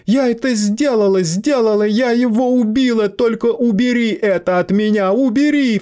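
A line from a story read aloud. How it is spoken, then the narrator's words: Sobbing. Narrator (Russian): всхлипывала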